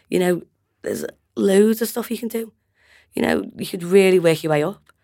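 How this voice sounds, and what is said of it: Scouse (Liverpool) accent. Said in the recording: “It's my Scouse accent”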